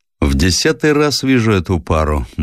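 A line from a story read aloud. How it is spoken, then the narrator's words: Gloomy. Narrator (Russian): мрачно произнес матрос Гриша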